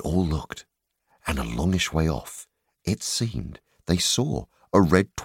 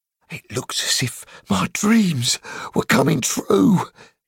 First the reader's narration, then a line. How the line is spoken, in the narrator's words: gasped Bomber, puffing up behind